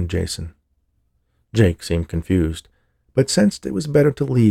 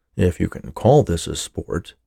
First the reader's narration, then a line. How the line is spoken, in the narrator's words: muttered Jason